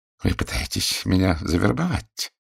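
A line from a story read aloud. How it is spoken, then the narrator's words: Quiet. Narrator (Russian): негромко проговорил он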